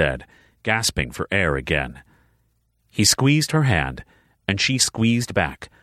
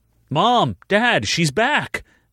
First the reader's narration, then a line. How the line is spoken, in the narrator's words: Malachi called out